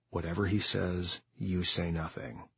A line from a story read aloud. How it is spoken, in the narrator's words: Jaqua whispered